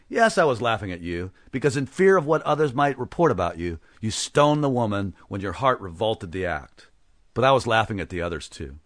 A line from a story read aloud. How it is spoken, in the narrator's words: That made Satan laugh again, and he said